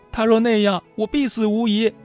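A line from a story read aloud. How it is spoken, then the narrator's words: Sobbing, choked voice. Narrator (Chinese): 女主哭得稀里哗啦，哽咽地说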